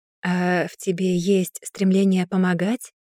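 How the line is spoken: Soft question. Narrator (Russian): мягко спросил он

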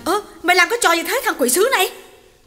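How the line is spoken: Yelling. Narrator (Vietnamese): Hậu hét lên

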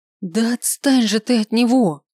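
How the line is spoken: Hoarse wheezing cry. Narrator (Russian): Не прокричала, прохрипела

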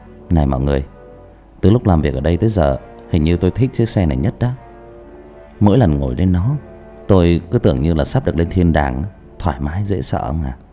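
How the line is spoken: Smiling. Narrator (Vietnamese): Minh miệng mỉm cười nói

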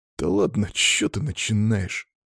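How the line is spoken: Offended mutter. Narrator (Russian): Обиженно буркнул Сева

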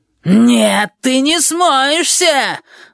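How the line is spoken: Yelling. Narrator (Russian): вопит Габи

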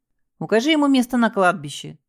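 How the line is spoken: Snort with worried undertone. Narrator (Russian): хмыкнул Лялин, но в голосе его появилось беспокойство

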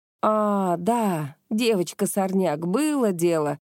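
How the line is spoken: Drawn-out drawl. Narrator (Russian): протянул Кио

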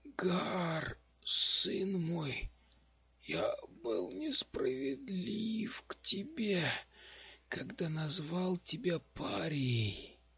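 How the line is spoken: Hoarse, fading voice. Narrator (Russian): прохрипел он, и голос его становился все слабее

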